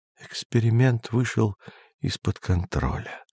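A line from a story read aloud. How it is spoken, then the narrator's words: Muttered, turned away. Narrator (Russian): пробормотал наставник, отвернувшись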